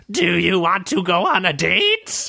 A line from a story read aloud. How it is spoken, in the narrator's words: the goblin's head turned completely around and screeched